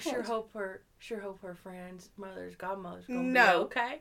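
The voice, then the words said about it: Matthew McConaughey accent impression. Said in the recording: “Matthew McConaughey... I nail his accent.”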